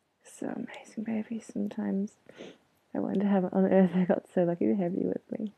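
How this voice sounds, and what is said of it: Teary, emotional voice. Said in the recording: “Sorry, I'm getting teary”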